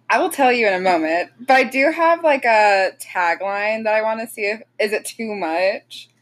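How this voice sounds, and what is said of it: Tired, low-energy, sick-sounding voice. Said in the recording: “I'm sorry if I'm a little low energy today... Very tired, been sick... I'm sorry if I sound like a hot pile of garbage rubbing together.”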